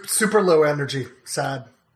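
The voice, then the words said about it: Imitates another person's voice. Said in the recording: “that impression”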